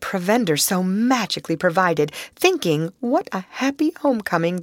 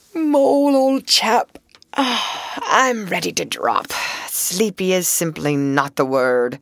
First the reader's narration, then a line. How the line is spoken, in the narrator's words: the Rat, with a tremendous yawn, said